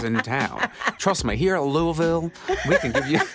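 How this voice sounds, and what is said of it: Put-on Southern accent. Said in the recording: “appropriating a Southern accent”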